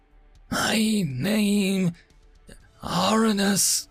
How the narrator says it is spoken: she wheezed again, her words sounding strangled

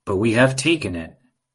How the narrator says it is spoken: the dandelions said

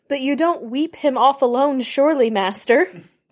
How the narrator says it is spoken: cried Sam, unable to contain himself any longer

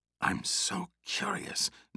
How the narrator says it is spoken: Nina whispered

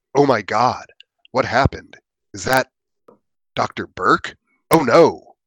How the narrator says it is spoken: he exclaimed

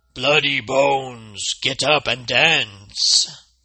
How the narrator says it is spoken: the enchanted Rawhead called out

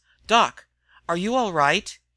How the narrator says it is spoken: he was asking sharply

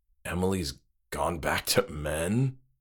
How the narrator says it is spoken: choked James

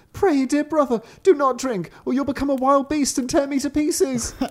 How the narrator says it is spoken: the sister cried

